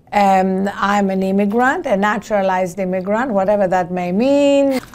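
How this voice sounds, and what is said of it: Greek accent. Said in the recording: “As you can hear from my accent, I was not born in this country... I was born in Greece.”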